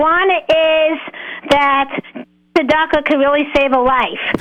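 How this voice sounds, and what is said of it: Usual voice. Nothing is said of it.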